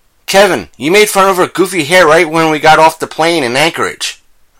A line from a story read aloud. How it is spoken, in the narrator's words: I cried